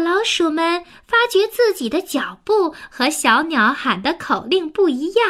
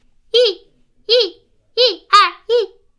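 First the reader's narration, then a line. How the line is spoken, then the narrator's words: Calling marching cadence. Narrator (Chinese): 一只小鸟很聪明，它喊起了跑步的口令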